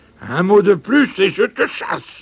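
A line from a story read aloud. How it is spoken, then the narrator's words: Roar. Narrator (French): rugit Paul Pingre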